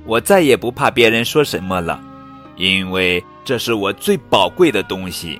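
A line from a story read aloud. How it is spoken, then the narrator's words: Loud, unable to hold back. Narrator (Chinese): 真美忍不住大声地说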